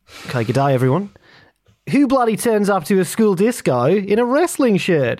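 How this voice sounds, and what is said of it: Put-on Australian accent. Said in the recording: “I can't do an Australian accent. can you say the following?”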